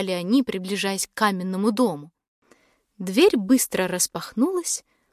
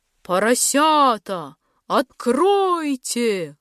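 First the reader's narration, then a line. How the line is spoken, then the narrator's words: Menacing wolf growl. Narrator (Russian): грозно зарычал волк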